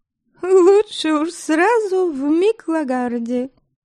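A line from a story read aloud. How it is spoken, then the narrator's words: Young girl giggling. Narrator (Russian): хихикнула Премислава, которая, несмотря на юные годы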